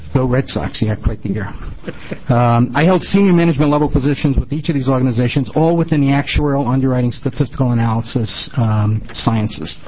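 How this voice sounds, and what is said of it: New England accent. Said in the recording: “you'll probably hear or pick up on my New England accent somewhere through my presentation”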